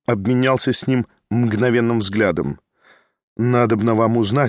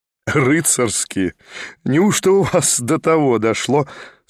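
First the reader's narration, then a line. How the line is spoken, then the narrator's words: Laughing. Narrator (Russian): смеялся Николя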